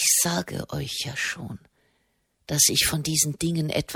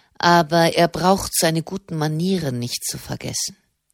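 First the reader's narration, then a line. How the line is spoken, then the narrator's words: Cold remark. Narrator (German): meinte der Generalmeister kalt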